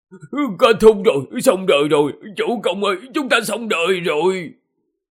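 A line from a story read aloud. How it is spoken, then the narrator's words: Wailing sobs. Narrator (Vietnamese): Hoàng Long Quân gào khóc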